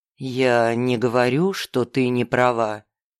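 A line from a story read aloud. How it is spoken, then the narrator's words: Gentle objection. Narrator (Russian): мягко возразил он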